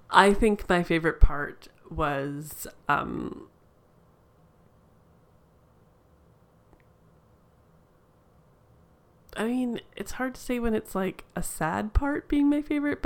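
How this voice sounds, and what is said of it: Slow, deliberate speech with long pauses. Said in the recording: “I'm saying this slowly so I can think of it”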